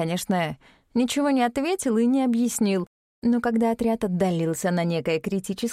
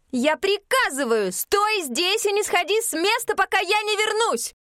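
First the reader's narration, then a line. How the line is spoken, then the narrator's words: Forceful near-shout. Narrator (Russian): Мин, собрав всю волю в кулак, почти прокричала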